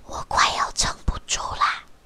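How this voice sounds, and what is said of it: Quiet, hushed voice. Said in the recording (Chinese): “小声的说”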